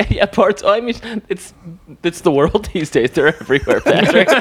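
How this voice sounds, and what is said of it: Usual voice. Nothing is said of it.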